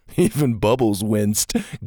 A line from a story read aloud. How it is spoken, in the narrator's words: Gavin chuckled